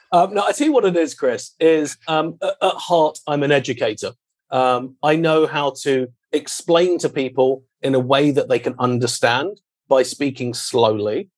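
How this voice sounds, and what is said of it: British accent. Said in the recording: “maybe that's just the British accent ... It's just the British accent gets me by in America”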